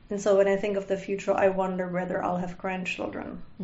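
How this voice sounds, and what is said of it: Non-native English accent. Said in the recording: “makes fun of my accent because she's born without an accent, at least in English”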